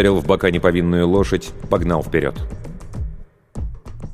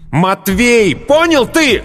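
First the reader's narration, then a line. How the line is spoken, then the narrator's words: Hateful shout. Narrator (Russian): выкрикнул с ненавистью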